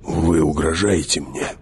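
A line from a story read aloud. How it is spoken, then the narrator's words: Near growl. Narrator (Russian): почти прорычал он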